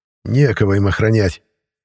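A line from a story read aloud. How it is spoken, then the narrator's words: Malicious smirk. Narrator (Russian): злобно усмехнулся сержант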